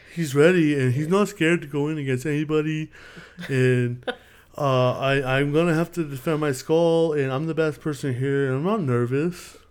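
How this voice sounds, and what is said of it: Imitates another person's voice. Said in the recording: “you, like, do the same mouth movements he does ... That's how you do a good impression.”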